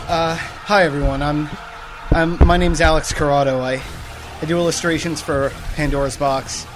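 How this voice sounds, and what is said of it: Out of breath. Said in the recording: “A little out of breath right now... He literally just ran here.”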